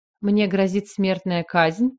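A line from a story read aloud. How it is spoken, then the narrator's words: Forced calm question. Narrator (Russian): поинтересовалась, постаравшись, чтобы голос прозвучал как можно более спокойно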